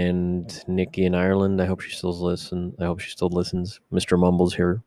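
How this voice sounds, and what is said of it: Usual voice. Nothing is said of it.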